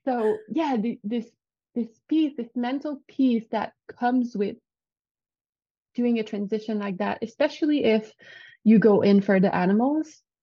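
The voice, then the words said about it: French Canadian accent. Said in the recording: “I'm French. Well, I'm not French, but I'm French Canadian. So if you hear an accent, that's where it comes from. I think it makes me charming.”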